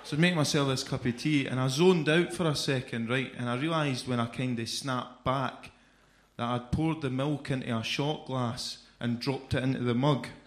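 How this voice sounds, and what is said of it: Scottish Edinburgh accent. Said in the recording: “May have noticed by my accent, I'm not from here. I'm from Edinburgh”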